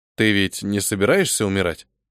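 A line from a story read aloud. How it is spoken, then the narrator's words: Plain question. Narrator (Russian): спросил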